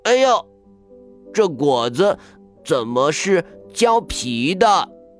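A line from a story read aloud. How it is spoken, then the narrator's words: Surprised outcry. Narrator (Chinese): 叫起来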